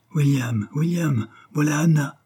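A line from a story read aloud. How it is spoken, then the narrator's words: Exclaiming. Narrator (French): s'écria Marie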